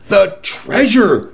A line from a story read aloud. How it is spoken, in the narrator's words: cried Salvador